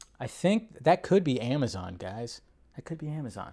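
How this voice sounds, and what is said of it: Usual voice. Nothing is said of it.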